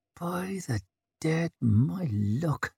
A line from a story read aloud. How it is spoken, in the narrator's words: he muttered